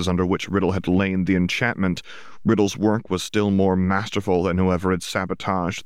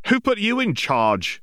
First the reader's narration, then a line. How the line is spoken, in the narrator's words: exclaimed one of the witches